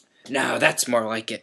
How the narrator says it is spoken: growled Moody

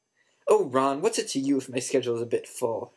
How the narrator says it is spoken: Hermione snapped

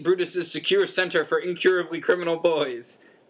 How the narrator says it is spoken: bellowed Uncle Vernon, a definite note of panic in Uncle Vernon's voice

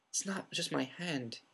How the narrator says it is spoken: whispered

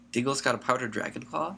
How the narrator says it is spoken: said Ron eagerly

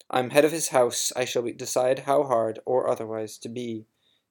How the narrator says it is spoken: said Snape curtly

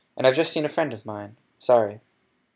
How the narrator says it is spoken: said Harry firmly

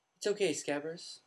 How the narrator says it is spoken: said Ron

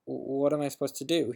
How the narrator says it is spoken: he stammered

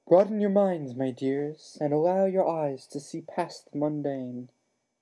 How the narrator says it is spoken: Professor Trelawney cried through the gloom

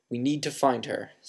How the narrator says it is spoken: said Dumbledore

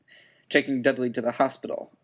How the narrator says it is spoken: growled Uncle Vernon

